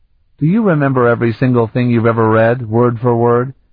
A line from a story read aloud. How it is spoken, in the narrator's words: Bevier laughed